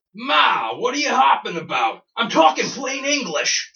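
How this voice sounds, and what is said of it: American accent. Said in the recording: “a horrible American accent.”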